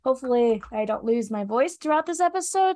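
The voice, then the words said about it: Stuffy, congested voice from a cold. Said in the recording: “my voice is going to be the death of me today. Still somewhat not recovered. ... if I sound stuffy”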